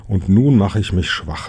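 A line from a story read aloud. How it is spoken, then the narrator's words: Plain. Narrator (German): sagte Ponyhütchen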